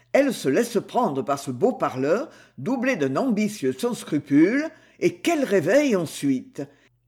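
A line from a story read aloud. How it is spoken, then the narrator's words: Grumbled. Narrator (French): Le colonel grommela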